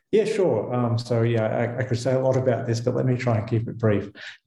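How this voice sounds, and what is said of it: Australian accent. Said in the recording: “as my accent betrays, I did not grow up in Switzerland. I grew up in Melbourne, Australia.”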